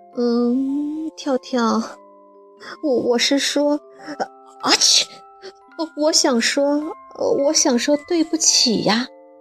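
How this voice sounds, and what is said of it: Quiet, mumbled hesitant apology. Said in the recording (Chinese): “小声咕哝着”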